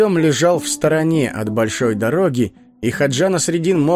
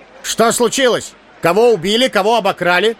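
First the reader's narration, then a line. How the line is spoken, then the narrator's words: Shouted. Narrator (Russian): закричал Хаджа Насреддин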